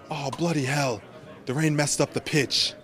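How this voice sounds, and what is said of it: Put-on British accent. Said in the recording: “They're British accents.”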